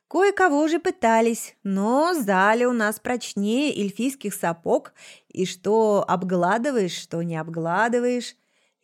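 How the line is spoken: Laughing, snide. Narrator (Russian): рассмеялась и, ехидно покосившись на Заль, сообщила

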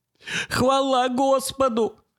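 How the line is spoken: Choked out through tears. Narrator (Russian): выдавил Джонсон сквозь слезы

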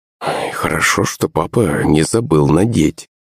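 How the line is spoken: Muttered. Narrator (Russian): пробормотала маман

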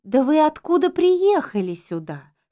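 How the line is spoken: Timid question. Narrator (Russian): спросила женщина, робко

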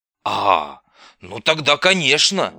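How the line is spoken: Old man's grunt. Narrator (Russian): старый хмыкнул

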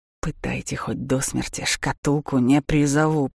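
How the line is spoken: Growled. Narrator (Russian): прорычал Даур

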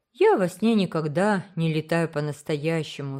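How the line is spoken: Sigh. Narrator (Russian): вздохнул Уолтер

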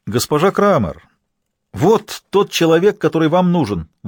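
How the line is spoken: Exclaimed. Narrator (Russian): воскликнул Линдер

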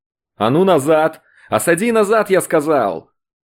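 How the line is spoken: Shrill shout. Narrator (Russian): Тот кричит как-то визгливо

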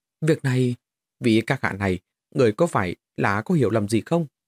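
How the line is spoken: Trembling low voice. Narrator (Vietnamese): Người nọ mồ hôi lạnh toát ra, lát sau mới run rẩy thấp giọng nói

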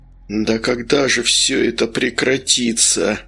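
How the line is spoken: Groaning. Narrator (Russian): застонал Вениамин

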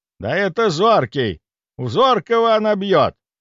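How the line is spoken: Shouted out. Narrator (Russian): выкрикнул он

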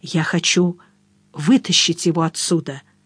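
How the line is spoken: Whisper. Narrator (Russian): прошептал я

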